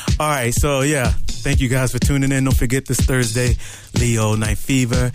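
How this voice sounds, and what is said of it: Out of breath, panting speech. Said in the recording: “I'm out of breath dancing up in here”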